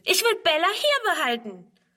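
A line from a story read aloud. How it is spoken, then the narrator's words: Shouting. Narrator (German): schreit Friedrun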